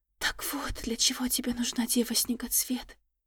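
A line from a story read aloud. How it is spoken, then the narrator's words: Terrified whisper. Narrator (Russian): в ужасе прошептала Тирис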